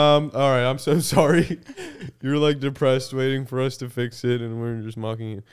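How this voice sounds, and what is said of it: Usual voice. Nothing is said of it.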